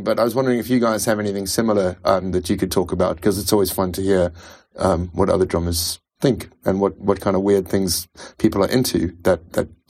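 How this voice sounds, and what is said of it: Mixed South African-English accent. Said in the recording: “I'm a South African expat. I've been living in England for 15 years ... so my accent is a bit of a hodgepodge”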